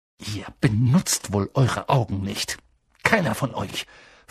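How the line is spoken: Snapped angrily. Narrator (German): fauchte sie

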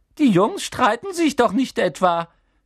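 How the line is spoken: Squeaked. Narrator (German): quiekte er

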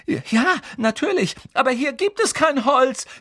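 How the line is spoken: Desperate shouting. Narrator (German): schrie Hermine händeringend

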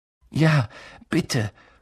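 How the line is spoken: Panting. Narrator (German): keuchte Harry

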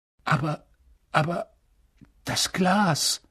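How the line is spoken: Constant muttering to himself. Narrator (German): murmelte er ständig vor sich hin

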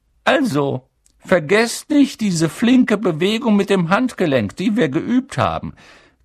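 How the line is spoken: High squeaky voice. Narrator (German): quiekte Professor Flitwick

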